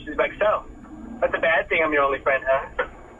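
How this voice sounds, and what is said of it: Uncanny impersonation of his wife. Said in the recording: “that uncanny impersonation”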